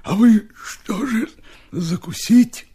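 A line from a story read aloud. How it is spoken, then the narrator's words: Forced words while chewing. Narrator (Russian): Прожевывая кусок икры, Степа выдавил из себя слова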